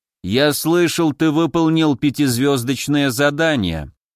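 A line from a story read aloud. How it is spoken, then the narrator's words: Even voice. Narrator (Russian): ровным голосом сказал он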